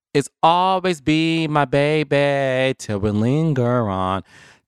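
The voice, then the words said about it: Sung imitation of another person's voice. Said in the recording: “In my Mariah Carey voice,”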